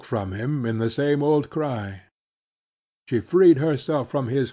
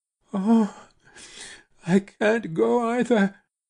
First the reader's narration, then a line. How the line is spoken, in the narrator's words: she wailed